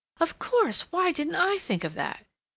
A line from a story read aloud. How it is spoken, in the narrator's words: exclaiming